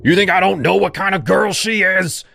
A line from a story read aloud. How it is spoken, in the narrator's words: he shouted